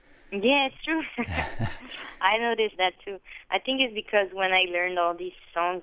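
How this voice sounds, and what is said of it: French accent in English. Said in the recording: “the French accent, to my ear, goes away entirely ... my accent goes away”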